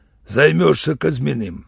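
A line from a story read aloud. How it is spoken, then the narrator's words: Rough. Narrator (Russian): Он сказал, грубо даже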